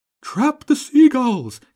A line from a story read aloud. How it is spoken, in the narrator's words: King Pigeon roared